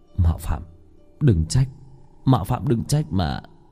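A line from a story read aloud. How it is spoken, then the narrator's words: Hurried muttering. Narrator (Vietnamese): Hắn vội vàng lẩm bẩm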